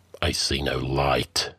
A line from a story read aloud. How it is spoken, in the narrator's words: Conan muttered